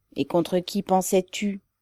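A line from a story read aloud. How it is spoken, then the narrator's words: Dull, gloomy tone. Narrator (French): demanda Ribine d'un ton morne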